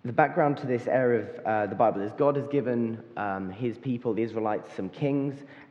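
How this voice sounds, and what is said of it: Slightly hoarse voice. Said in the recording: “my voice is a bit hoarse. You probably can hear I've been yelling quite a lot this week.”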